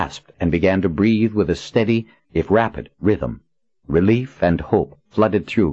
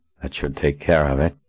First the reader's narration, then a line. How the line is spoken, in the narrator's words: murmured to himself